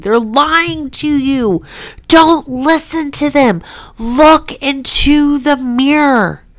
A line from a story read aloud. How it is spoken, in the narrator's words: gritting my teeth in utter disgust and anger, screaming